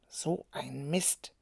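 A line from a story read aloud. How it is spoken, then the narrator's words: Muttering. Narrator (German): murmelte er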